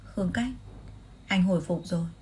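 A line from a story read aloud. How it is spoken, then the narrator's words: Gentle trembling voice. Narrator (Vietnamese): giọng nói dịu dàng mà run rẩy của anh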